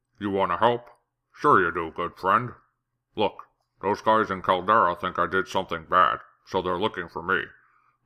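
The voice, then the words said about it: Orc character voice. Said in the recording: “doing an orc voice audition”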